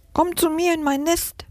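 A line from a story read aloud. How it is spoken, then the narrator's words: Sparrow chirping. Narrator (German): piepst der Spatz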